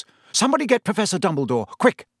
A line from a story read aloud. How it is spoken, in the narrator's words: Percy say in a suddenly sharp voice